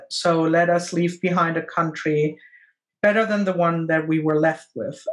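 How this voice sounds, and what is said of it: Speaks with a noticeable accent. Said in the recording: “Sorry for my accent, guys”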